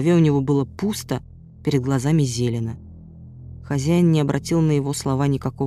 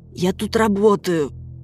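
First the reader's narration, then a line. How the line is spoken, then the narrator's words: Hoarse wheeze. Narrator (Russian): просипел Славик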